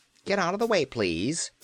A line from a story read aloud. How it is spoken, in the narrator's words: he called in a fretful voice